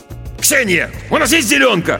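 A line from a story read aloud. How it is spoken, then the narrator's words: Irritated bark. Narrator (Russian): Раздраженно рявкнул он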